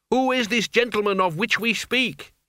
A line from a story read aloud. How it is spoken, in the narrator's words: he yelled